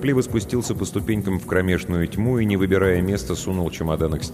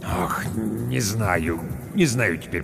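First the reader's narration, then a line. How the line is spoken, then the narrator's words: Mumbling building manager. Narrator (Russian): пробормотал управдом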